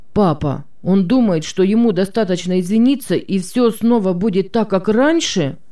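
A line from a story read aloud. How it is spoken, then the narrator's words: Indignant. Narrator (Russian): возмущенно сказал Марк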